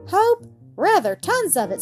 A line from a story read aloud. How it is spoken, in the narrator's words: said father cheerfully